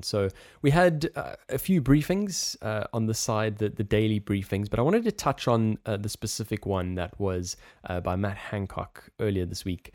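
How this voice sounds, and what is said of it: South African accent. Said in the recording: “we both have South African accents”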